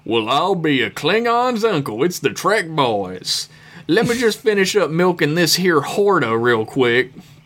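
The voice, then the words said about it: Country prospector accent. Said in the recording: “Whatever country accent you're feeling, Georgia, crazy prospector, whatever”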